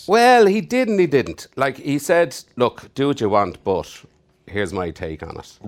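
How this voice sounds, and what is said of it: Irish accent. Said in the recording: “I'm Brendan Gleeson. If you don't recognize the accent, I'm Irish.”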